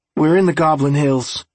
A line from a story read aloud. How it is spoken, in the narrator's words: Jared blurted